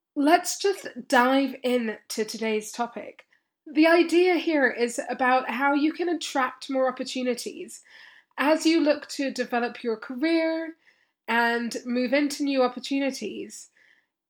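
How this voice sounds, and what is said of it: Rough, sore-throated voice. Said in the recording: “you can probably hear my voice sounds a little bit different today ... this sore throat is not messing around”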